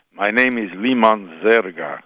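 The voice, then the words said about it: Put-on Russian Slavic accent. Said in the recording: “a Russian accent ... some kind of Middle European accent ... So it was Russian, Slavic, you know, it was some strange”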